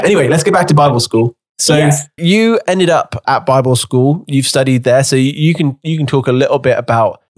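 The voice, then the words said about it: English accent from England. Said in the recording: “I love your accent ... I am from England, and I'm speaking English”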